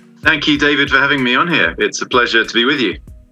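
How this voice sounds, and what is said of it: English accent. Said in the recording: “What a lovely English accent.”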